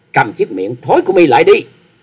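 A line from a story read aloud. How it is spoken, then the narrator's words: Loud shout. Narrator (Vietnamese): Trịnh Bội Hà quát to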